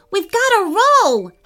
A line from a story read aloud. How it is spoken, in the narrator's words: Harrison shouted